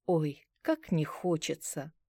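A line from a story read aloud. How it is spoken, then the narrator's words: Sigh. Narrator (Russian): вздохнула я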